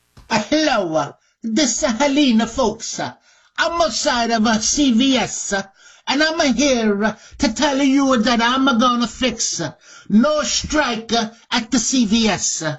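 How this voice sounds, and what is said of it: Put-on Italian accent. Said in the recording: “Is ... got an Italian accent now”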